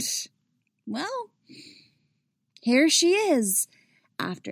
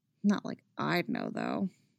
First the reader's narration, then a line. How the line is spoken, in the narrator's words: the weed had loosened her tongue too much, because then Chrissy had muttered